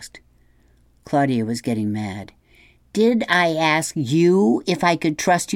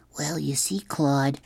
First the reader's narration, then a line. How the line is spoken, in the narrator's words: Jamie whispered